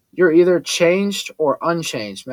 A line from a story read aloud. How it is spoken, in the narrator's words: Max said